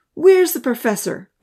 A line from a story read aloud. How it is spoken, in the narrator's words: Odin called out